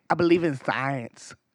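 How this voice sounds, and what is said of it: Good imitation of movie character voice. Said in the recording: “The Nacho Libre. ... That's a good impression.”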